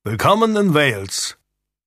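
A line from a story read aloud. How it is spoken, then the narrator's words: Call. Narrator (German): rief Edmund Tudor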